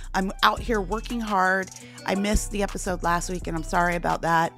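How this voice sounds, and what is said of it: Tired, fatigued voice. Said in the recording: “You can probably hear the fatigue in my voice.”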